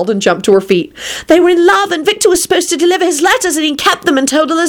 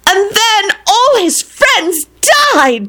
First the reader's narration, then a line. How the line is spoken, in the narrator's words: She screamed melodramatically